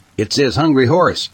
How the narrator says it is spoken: I yelled

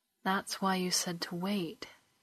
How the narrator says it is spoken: Kelani sighed

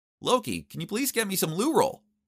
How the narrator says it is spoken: I shouted

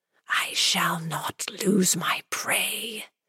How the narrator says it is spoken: threatened the whispers

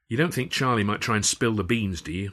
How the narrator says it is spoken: I said

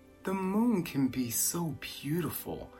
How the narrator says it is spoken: he whispered with a sigh

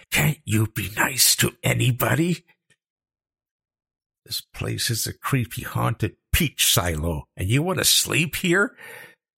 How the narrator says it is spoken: She hissed

